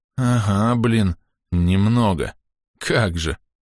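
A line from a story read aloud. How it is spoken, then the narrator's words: Strained, forced out. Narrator (Russian): С трудом выдавил знаменитый и грозный лидер команды Кузьмич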